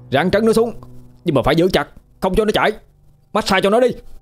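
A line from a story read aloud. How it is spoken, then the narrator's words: Straining shout. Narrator (Vietnamese): Điền cố dùng sức, nó la lên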